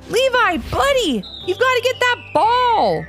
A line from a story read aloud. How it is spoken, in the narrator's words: shouted Levi's dad